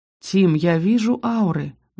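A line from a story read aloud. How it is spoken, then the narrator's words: Gentle reminder. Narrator (Russian): мягко напомнил лорд Ярби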